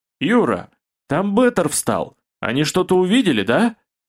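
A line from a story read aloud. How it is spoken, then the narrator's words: Alarmed shout. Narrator (Russian): Откровенно тревожно заорал Олег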